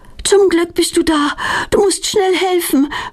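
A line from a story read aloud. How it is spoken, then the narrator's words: Panting. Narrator (German): keucht Petronella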